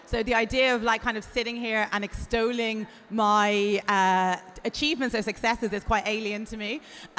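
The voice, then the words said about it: Irish accent. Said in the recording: “I come from Ireland, as you can probably hear from my accent”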